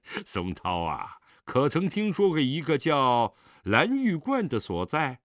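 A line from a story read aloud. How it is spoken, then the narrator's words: Laughing. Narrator (Chinese): 狄仁杰笑道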